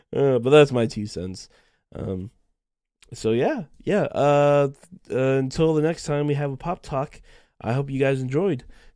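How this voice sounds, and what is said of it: Nasal, sick-sounding voice. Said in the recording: “my voice is a little bit weird and I feel a little bit more nasally. That's because I am still sick”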